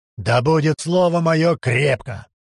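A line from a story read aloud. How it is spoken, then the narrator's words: Growled by a sorcerer. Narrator (Russian): прорычал чародей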